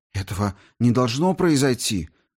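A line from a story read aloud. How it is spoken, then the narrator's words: Horrified exclamation. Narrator (Russian): воскликнул я, охваченный ужасом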